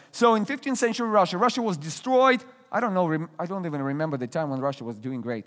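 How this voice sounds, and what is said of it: Russian accent. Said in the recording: “I'm originally from Russia. You hear my accent.”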